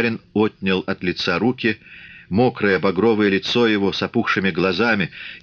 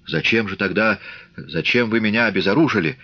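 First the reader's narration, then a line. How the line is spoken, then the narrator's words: Stammering question. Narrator (Russian): заикаясь, спросил он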